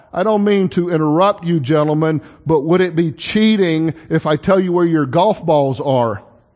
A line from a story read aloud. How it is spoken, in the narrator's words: she finally called out